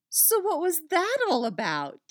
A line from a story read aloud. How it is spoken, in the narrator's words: She asks excitedly